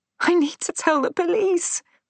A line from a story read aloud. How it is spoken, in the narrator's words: sobbed